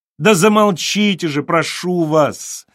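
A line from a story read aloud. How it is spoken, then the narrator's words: Shouting. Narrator (Russian): закричал он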